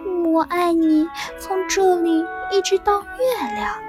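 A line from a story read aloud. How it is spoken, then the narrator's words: Sleepy murmur. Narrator (Chinese): 小兔子闭上了眼睛，在进入梦乡前，喃喃说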